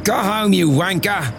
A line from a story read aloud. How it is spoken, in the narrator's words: her companion shouted